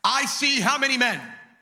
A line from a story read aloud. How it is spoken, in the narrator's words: Nebuchadnezzar shouted